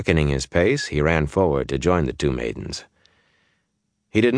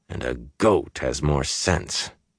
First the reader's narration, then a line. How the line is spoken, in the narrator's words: he added, in a fierce undertone